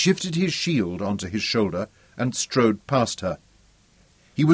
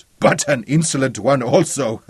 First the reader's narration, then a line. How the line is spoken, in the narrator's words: laughed